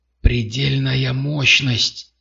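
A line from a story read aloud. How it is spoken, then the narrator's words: Breathless exhale. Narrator (Russian): выдохнул Дальтер за спиной Картера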